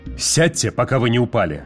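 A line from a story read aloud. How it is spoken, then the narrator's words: Barked. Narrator (Russian): рявкнул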